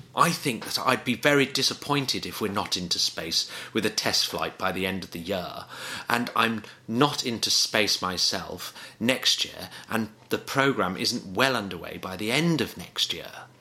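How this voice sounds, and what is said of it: Poor posh English accent impression. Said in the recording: “I'm going to try and do posh English ... Is that a good impression of Richard Branson? ... No, it was terrible ... really bad. It was really bad.”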